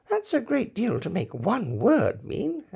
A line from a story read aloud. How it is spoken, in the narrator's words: Alice said in a thoughtful tone